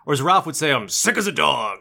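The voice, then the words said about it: Character impression, sick-sounding voice. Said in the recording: “If I wasn't sick, that would have been a good impression, but... I'm sick, so it's not a good impression. ... You sound more like Ralph just when you talk.”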